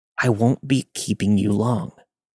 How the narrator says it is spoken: he hissed in my face

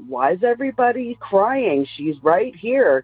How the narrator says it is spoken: my mother yells out

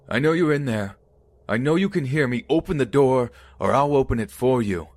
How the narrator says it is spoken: yelling

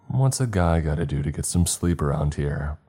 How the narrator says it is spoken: I asked

